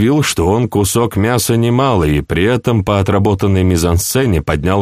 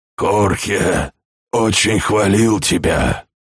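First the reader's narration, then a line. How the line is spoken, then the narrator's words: Hoarse voice. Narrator (Russian): хриплым голосом сказал Бодуэн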